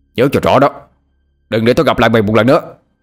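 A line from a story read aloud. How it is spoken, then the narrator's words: Angry shouting. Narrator (Vietnamese): Bằng tức giận nhìn theo mà hét lên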